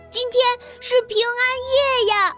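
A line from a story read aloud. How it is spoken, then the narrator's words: Excited shout. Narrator (Chinese): 跳跳激动地喊着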